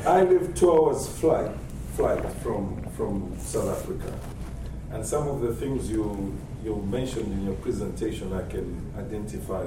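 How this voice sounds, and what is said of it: Zambian-accented English. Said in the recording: “I'm from Zambia. ... Sorry for my accent.”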